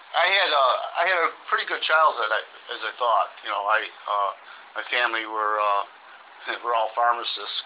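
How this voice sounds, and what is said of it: Chicago accent. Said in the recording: “you can tell by my accent, I was born in the South. South side of Chicago.”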